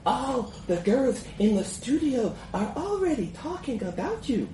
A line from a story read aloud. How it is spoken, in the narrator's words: she purrs